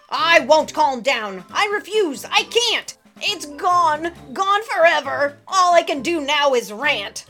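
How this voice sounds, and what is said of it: Loud yelling, ranting voice. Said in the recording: “lower your voice ... Could you stop yelling, please? ... It does you no good to scream and to yell.”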